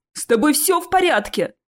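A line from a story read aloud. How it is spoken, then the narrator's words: Roaring. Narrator (Russian): проревел Чез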